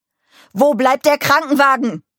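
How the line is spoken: Bellowing at someone. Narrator (German): brüllte er Mike an

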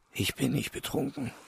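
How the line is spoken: Hoarse reply. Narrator (German): Stjopa erwiderte heiser

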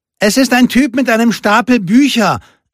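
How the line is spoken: Calling into a hut. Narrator (German): rief Lupe in die Hütte

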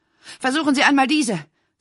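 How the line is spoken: Breathless. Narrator (German): sagte sie atemlos

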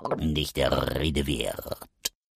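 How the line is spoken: Croaking raven, rolled R. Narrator (German): krächzte der Rabe mit rollendem R

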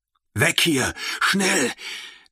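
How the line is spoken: Hissed. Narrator (German): zischte er

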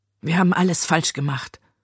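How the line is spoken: Muttered. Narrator (German): murmelte sie

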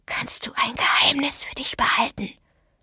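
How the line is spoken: Whisper. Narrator (German): flüsterte Douglas Benson

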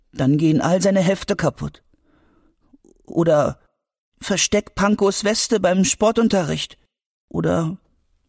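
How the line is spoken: Sad. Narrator (German): sagte Albi traurig

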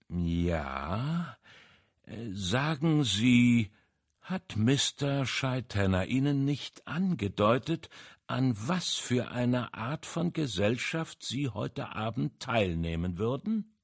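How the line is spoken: Slow speech. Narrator (German): Poirot sagte langsam

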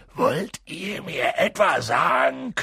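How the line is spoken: Growling. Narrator (German): knurrte er sie an

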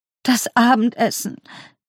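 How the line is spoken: Sobbing. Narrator (German): schluchzte

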